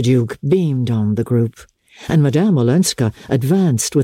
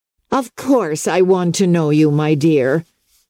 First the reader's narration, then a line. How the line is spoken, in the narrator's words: cried Mrs